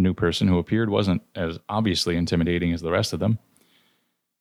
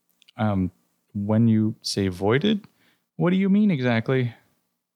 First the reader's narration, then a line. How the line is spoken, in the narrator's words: take a deep breath ... sighed